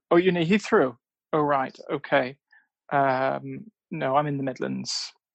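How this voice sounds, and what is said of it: Irish accent. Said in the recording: “was it you that they had an accent? It is an Irish accent? ... It's an Irish accent”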